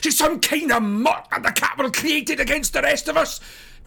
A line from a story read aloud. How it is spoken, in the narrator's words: Peter shouts